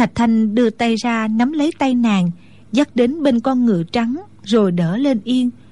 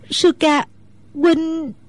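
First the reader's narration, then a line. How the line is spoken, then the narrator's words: Choked, tearful voice. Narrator (Vietnamese): Nước mắt Mẫn Nhu trào ra như mưa, nàng nghẹn ngào nói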